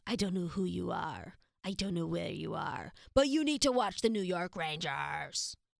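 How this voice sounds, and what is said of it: Poor imitation of another person's voice. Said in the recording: “That was a terrible impression”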